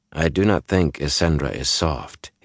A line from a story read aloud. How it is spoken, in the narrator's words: he said quietly